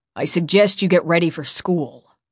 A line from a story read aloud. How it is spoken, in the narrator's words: he said icily